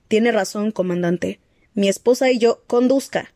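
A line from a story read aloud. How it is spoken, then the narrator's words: Snapped. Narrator (Spanish): le espetó Olivetti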